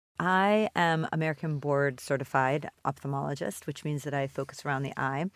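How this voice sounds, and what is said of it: American accent. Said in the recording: “as you can tell from my American accent”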